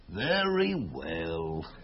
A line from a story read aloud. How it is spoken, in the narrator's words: sighed her uncle, a soft-hearted guy